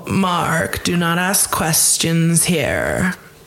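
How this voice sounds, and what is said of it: Imitates another person's voice. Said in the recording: “Meredith Marks from Real Housewives of Salt Lake City voice ... accent ... That was actually pretty good.”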